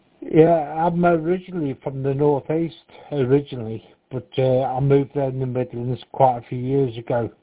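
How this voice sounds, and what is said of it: Northeast English accent. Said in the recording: “the accent is a little bit different ... northeast, that sort of, what, Newcastle up that way somewhere?”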